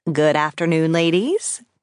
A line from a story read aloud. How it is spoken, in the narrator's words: said cheerfully